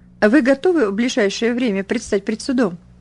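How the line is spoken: Casual everyday inquiry. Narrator (Russian): будничным голосом осведомился он

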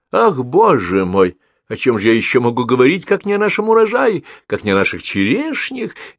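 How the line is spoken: Cheerful reply. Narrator (Russian): весело ответила тетя

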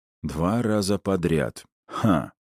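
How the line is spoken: Thoughtful mumble. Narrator (Russian): задумчиво пробормотал я

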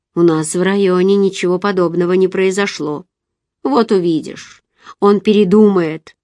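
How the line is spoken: Skeptical tone. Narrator (Russian): сказал скептическим тоном

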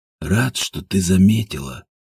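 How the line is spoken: Mumble. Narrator (Russian): пробормотал Ажуров

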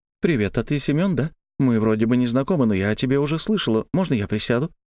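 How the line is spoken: Rapid chatter. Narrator (Russian): Тараторила она, как обычно

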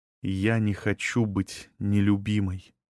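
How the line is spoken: Quiet sad speech. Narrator (Russian): тихо сказала Агнес

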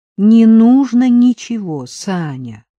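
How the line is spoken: Pleading. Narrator (Russian): взмолилась она

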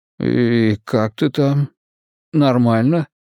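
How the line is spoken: Faint strained voice. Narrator (Russian): блеклым голосом выдавил

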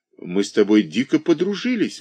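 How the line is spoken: Exclaimed. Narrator (Russian): воскликнула

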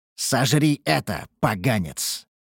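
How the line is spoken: Spoken angrily. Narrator (Russian): проговорил я злобно

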